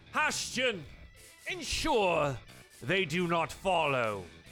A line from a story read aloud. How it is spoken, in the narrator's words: he shouts out from here and says